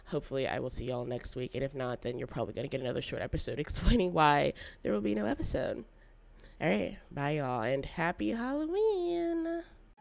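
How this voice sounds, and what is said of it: Noticeably affected, unwell-sounding voice. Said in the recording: “as you can tell by my voice”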